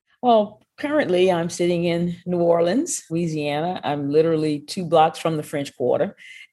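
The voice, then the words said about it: Cajun Creole Southern US accent. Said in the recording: “your fantastic accent ... I guess I have a little bit of Cajun Creole”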